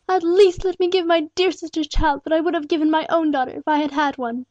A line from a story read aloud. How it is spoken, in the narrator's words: she pleaded tearfully